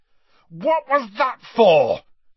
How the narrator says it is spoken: Harry bellowed

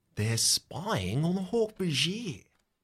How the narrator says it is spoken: whispers

